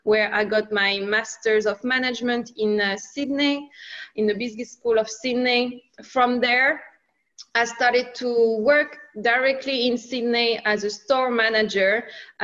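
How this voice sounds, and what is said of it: French accent. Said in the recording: “I'm sure you can hear it. I have a French accent. I'm originally from France.”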